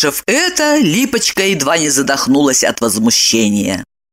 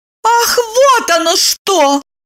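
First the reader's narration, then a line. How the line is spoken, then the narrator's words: Shouting. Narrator (Russian): закричала Липочка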